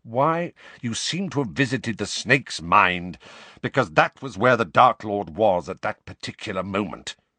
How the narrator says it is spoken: snarled Snape

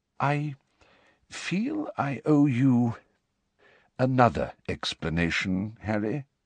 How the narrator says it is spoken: said Dumbledore hesitantly

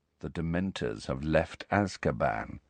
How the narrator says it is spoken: said Malfoy quietly

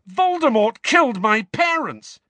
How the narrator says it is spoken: Harry spluttered

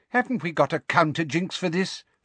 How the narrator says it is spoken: Fudge asked Umbridge impatiently

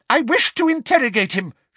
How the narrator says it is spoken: shouted Umbridge angrily

